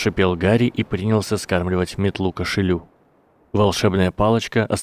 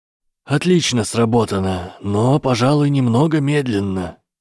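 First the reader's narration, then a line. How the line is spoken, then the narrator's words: Creaky voice. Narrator (Russian): проскрипел его голос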